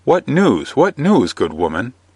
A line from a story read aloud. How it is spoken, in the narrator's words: said Robin hastily, but courteously, for he liked her well